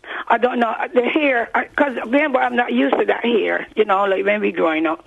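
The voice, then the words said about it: Strong Barbadian accent. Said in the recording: “you've got a very strong accent. ... Barbados. ... Oh, it's a Barbadian accent.”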